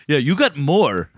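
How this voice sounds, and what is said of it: Put-on Korean accent. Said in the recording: “your Korean impression?”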